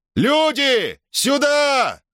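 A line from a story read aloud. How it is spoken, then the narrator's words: Yelled. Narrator (Russian): заорал он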